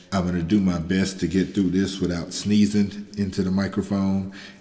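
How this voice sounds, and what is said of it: Sick, congested voice. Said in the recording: “Everybody in my house has been sick... it is my turn... I apologize for the way my voice sounds.”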